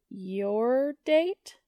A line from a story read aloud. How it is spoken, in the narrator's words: Joe asks slowly